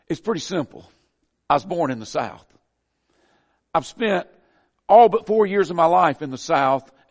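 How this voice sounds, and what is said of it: Southern American accent. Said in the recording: “I speak with a southern accent ... my southern accent”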